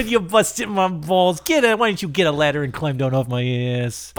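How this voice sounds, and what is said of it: Put-on Italian accent. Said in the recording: “Why does he suddenly have an Italian accent?”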